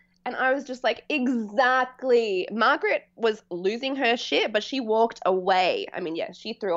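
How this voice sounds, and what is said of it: Usual voice. Nothing is said of it.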